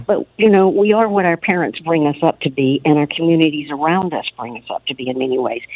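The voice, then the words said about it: Southern American accent. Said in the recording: “You can probably tell from my voice, I'm Southern.”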